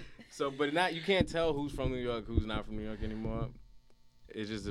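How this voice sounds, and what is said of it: Usual voice. Nothing is said of it.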